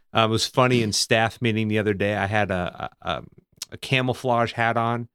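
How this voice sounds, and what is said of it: Southern US accent, hints of New England. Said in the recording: “I say a few words that sound like I'm from New England, but for the most part, I sound like a Southerner.”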